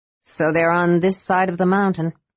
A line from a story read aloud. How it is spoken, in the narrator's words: said Tanis grimly